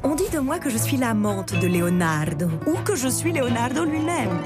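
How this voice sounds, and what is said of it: Strong Italian accent in French. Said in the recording (French): “avec cet accent italien prononcé”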